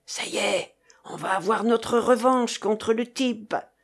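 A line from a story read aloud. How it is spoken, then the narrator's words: Whispered. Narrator (French): souffla le russe à ses compagnons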